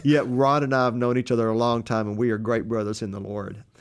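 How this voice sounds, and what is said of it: Texas accent. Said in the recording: “you got me on the other side talking with my Texas accent”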